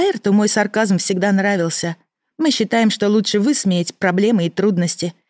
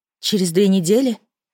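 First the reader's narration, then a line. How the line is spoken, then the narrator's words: Glum question. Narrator (Russian): уточнила уныло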